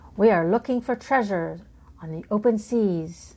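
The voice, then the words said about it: Growling pirate voice. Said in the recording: “growled Toby in his best pirate voice.”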